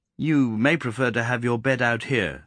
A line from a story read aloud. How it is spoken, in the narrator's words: said John